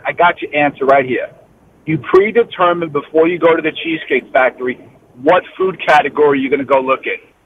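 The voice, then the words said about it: New York accent. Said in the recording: “that is not a Florida accent. So you are clearly, I think, from New York originally.”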